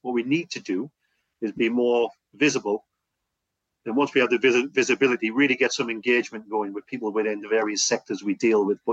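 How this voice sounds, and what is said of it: Northeast English accent. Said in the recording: “you're a northeast lad, I'm hoping, with a similar accent to me... Northeast.”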